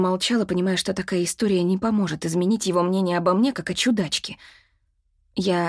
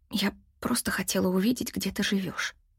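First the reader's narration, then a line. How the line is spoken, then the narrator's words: Mumbled. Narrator (Russian): пробормотала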